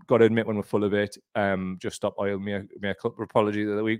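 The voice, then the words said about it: Geordie accent. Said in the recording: “If the Geordie accent is too much, let us know.”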